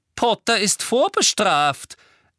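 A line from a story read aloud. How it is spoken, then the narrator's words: Loud retort. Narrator (German): entgegnete Umbridge laut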